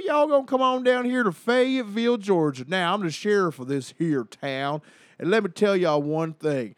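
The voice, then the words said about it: Put-on Southern US accent. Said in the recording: “I gotta come back to a southern accent”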